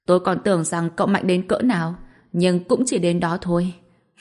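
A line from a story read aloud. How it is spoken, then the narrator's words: Smug loud laughter. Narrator (Vietnamese): Cát Tắc vẫn còn đang hà hề đắc ý cười to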